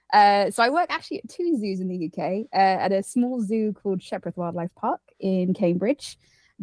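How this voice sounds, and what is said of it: British English accent. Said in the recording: “I'm from the UK, as you can probably tell by my accent.”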